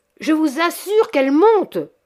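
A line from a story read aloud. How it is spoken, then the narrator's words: Shouted. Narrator (French): cria M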